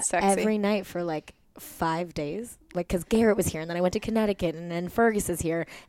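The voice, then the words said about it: Worn-out party voice. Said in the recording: “you can hear it in my party voice”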